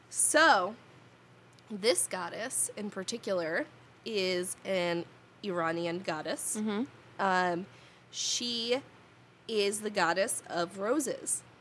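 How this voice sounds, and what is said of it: New Jersey accent. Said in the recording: “I am from New Jersey. ... this is how my accent sounds.”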